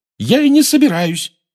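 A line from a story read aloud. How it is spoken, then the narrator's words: Shouted. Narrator (Russian): выкрикнула она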